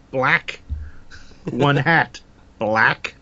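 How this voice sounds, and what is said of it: Imitates another person's voice. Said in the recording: “my terrible Frank Oz impersonation”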